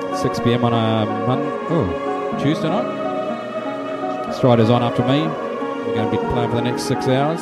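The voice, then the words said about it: New Zealand accent. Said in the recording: “my numpty Kiwi accent”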